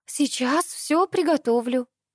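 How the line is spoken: Girl's cooing voice. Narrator (Russian): проворковала девушка

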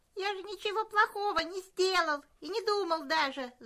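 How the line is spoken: Whining. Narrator (Russian): заскулил пес

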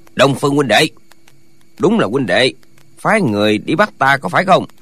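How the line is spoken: Hoarse, powerful, echoing. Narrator (Vietnamese): Giọng nói khàn khàn nhưng nội lực sung mãn, hồi âm dội lại, hiển nhiên rất là oai mãnh

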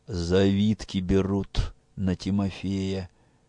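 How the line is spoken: Quiet speech. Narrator (Russian): сказал он тихо

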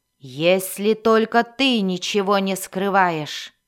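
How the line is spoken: Icy angry growl. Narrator (Russian): Зарычала мать Мелис на Дайнина, и это прозвучало такой ледяной и злой угрозой

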